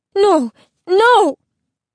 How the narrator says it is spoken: Isabel cried

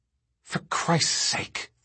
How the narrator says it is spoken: Thorne whispered

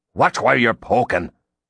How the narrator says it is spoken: an irate guest barked

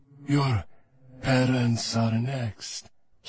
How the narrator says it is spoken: he purred

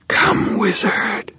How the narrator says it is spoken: Mavra whispered

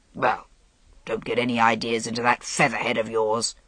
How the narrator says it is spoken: Leodegrance said gruffly

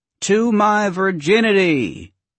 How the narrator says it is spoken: Oscar shouted

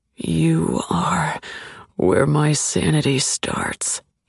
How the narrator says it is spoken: murmurs gravely

